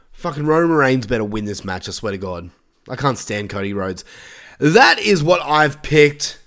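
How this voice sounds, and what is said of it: Strained, failing voice. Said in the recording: “my voice is giving up so hard right now. I'm sure you can hear it.”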